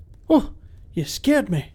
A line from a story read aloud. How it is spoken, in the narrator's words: exclaimed Angus